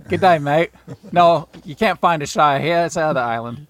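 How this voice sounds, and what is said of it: Deliberately bad Australian accent. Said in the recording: “That was my worst Australian accent of all time.”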